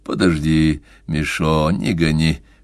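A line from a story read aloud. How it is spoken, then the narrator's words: Low undertone mutter. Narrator (Russian): в полголоса пробормотал он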